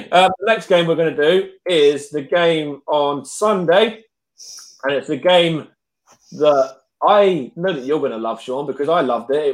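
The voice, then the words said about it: Hoarse, strained voice. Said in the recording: “I'm losing my voice a bit”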